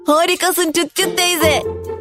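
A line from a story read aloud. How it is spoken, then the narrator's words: Shouted. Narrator (Turkish): diye bağırdı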